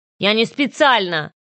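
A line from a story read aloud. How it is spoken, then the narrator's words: Stung, snapping. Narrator (Russian): огрызнулся, явно задетый обвинением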